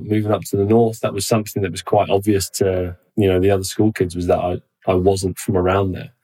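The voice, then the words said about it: Southern English accent. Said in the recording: “I've still got my, my southern accent now”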